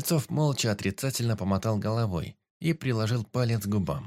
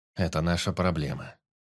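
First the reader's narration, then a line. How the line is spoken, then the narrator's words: Quiet. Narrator (Russian): негромко сказал Кольцов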